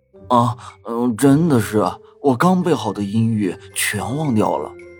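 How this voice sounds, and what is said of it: Quiet, hushed complaining. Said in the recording (Chinese): “小声抗议”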